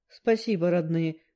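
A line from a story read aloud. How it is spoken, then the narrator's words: Grumbling. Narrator (Russian): проворчала я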